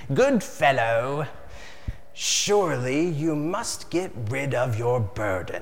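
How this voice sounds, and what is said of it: Character voice for Mr. Worldly Wiseman. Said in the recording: “Mr. Worldly Wise Man ... that's how his voice sounds when I read it in my head.”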